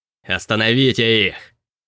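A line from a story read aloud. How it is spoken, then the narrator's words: Growled. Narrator (Russian): прорычал Билли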